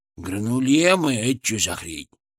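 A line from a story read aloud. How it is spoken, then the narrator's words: Grumbled. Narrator (Russian): проворчал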